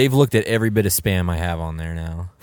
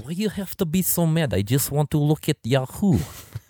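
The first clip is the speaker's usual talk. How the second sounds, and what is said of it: Put-on Russian accent. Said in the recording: “I had my Russian accent down really good before”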